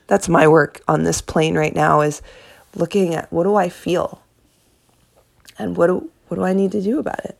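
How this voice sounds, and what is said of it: Strained, failing voice. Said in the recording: “I'm losing my voice now”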